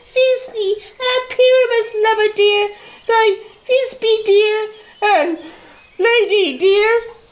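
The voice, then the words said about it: Exaggerated tiny high-pitched voice. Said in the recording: “I'll speak in a monstrous little voice.”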